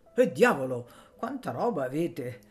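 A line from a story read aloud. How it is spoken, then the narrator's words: Exclaimed. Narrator (Italian): egli esclamava col fare di Bustianeddu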